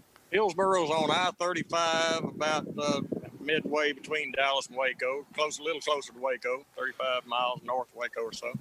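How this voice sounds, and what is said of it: Regional Texas accent. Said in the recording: “I wouldn't be able to tell if it weren't for your accent.”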